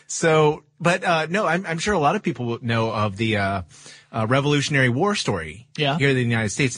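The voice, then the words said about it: British accent. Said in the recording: “accent, ... he is, of course, British”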